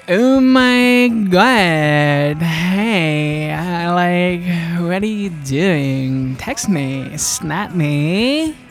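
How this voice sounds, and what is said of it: Put-on valley girl accent. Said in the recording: “I sounded like a valley girl ... That show, The Hills, about valley girls ... Maybe I'll adopt that accent now”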